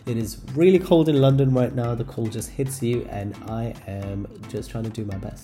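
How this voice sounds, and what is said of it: Nasal, congested voice. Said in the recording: “I sound a bit nasally, it is because I am recovering from a cold”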